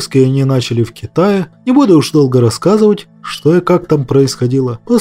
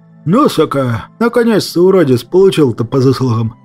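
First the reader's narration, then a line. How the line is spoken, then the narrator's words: Hopeful breathy exhale. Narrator (Russian): С надеждой выдохнул я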